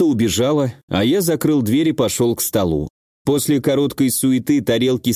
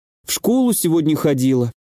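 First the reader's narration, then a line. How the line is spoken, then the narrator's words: Bitter sigh, young girl. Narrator (Russian): горько вздохнула девочка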